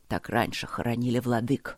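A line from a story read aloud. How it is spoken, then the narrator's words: Barely audible. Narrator (Russian): ответил муж едва слышно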